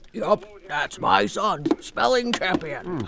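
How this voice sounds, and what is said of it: Imitates another person's voice. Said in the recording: “Good impression,”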